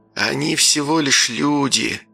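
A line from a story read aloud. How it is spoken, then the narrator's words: Hissed. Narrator (Russian): прошипел надзиратель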